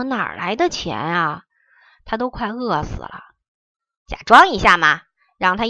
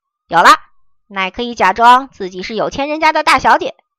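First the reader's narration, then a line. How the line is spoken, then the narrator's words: Calling out. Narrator (Chinese): 荼蘼叫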